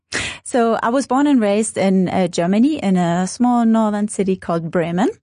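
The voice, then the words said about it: Foreign-accented English. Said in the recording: “as people would have guessed from the accent, you're not Namibian”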